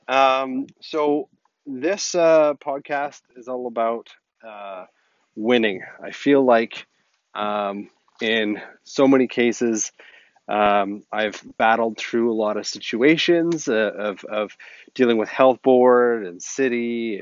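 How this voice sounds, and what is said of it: Muffled, raspy voice. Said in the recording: “it sounds a little weird or muffled ... battling a little bit of a cold ... it sounds a little weird and raspy.”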